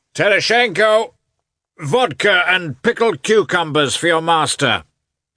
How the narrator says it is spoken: he shouted, evidently enjoying the sound of his own voice

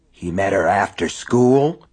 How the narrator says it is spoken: Lester asked hoarsely

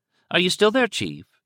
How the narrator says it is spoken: the female voice from Bergenfield County Hospital asked brightly

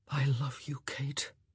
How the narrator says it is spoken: he whispered, his lips brushing the words against her mouth

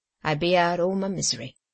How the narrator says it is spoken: said the woman, gruffly

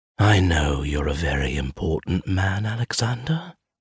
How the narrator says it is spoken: I whisper

